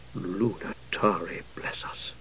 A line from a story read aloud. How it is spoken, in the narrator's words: she whispered